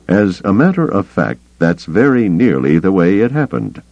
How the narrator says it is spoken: Carda said stiffly

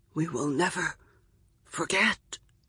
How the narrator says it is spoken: he whispers

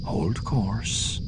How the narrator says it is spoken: Card told him quietly

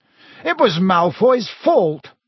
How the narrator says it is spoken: snapped Dean Thomas

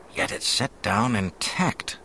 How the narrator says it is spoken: the officer was murmuring to himself

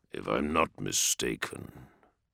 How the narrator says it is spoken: Dorn growled

